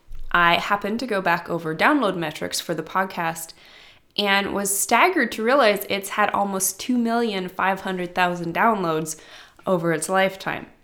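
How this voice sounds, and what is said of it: Congested, stuffy-nosed voice. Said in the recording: “I've got a stuffy nose again, like I do today”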